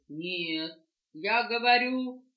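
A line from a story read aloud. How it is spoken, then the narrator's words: Rooster shouting. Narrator (Russian): петух закричал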